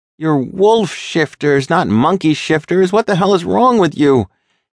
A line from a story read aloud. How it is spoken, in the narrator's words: yelled out in a panic, his heart pounding